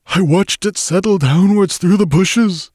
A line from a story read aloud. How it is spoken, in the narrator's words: he sobbed at me